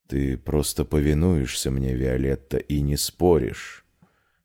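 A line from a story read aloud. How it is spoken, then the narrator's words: Quiet male voice. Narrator (Russian): тихо проговорил мужчина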